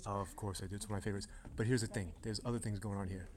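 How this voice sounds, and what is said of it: Whispering in hushed tones. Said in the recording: “and I were kind of whispering right now. There's hushed tones here.”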